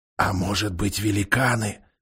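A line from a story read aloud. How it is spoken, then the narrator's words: Whispered. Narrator (Russian): прошептал Эдмунд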